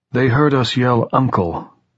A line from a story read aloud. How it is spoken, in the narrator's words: Dan said in that same beaten, bitter tone